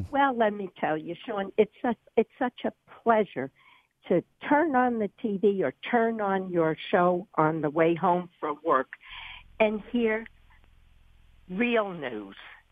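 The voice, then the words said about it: New York accent. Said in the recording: “you're from New York. It's very, very obvious. ... we hear the way you talk, and you talk very much like a New Yorker. You don't sound like you're from North Carolina.”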